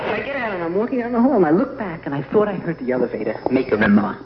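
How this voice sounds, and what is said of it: Slight New York accent. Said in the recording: “I talk, I think, with a slight New York accent”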